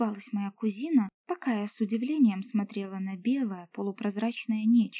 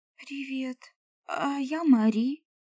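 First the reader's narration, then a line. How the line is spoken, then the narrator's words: Stammering with excitement. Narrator (Russian): Заикаясь от волнения, сказала я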